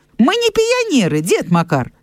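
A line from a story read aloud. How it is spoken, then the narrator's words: Cheerful. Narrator (Belarusian): сказаў ён весела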